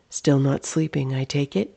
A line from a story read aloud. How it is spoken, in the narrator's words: Amelia asked